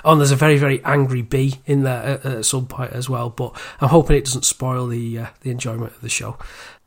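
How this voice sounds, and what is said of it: Congested voice from a cold. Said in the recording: “I was starting with a cold as well, which you can probably hear in my my voice”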